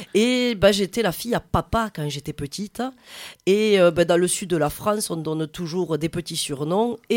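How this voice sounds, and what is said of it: Southern French Tarn accent. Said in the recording (French): “un petit accent qui n'est pas marseillais, mais plutôt du Tarn... un accent bien du sud”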